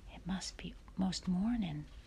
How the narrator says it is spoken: Laura whispered

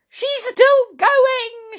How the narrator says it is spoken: shouted Mr

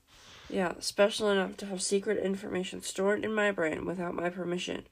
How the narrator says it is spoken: she mumbled

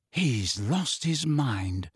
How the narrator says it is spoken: said Ron in an almost awed voice

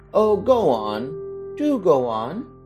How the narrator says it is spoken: the children cried

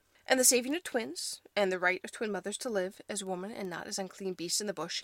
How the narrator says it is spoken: she asked

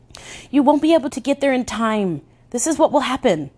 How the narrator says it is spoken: I cried, desperate

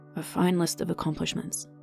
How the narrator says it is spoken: murmured

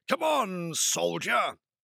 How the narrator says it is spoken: barked enthusiastically

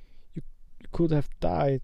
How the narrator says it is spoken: sobbed Hagrid

